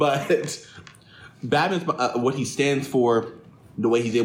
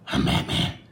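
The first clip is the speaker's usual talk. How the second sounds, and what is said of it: Batman character voice. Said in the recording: “the Batman voice”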